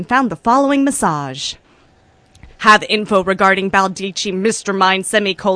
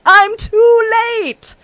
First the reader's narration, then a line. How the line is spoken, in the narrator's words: smacked his own, mostly uninjured head and wailed